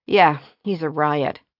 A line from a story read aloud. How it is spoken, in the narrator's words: Jeannie said dryly